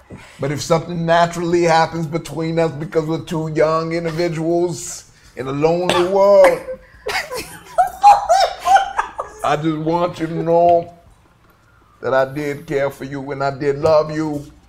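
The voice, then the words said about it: Speaks in a put-on accent. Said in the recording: “this is hard to take you seriously when you're talking like this ... Where is the accent from? ... Don't worry about my accent.”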